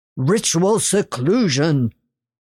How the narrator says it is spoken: he bellowed

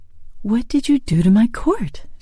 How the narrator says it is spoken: she asked hastily

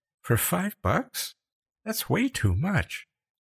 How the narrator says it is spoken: Becca said in a faint voice

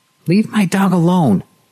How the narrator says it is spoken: she shouted at him

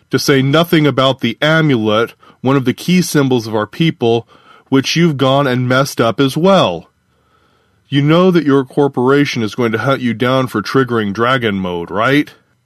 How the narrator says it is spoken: Parka laughed

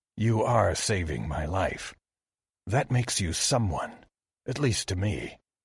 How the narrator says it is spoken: Kinori murmured

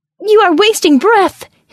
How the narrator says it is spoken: his soul shrieked

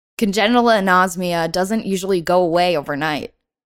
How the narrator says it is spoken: she said

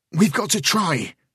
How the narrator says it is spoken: Rain said hotly

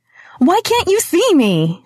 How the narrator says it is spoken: She shouted, her eyes filling with tears

